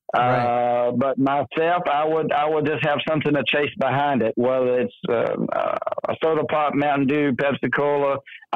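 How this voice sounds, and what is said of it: Southern American accent. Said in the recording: “you're from the South? I couldn't tell from your accent.”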